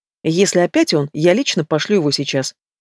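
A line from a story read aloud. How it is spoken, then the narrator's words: Fierce, then breaking off. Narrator (Russian): Боевым тоном произносит она, но осекается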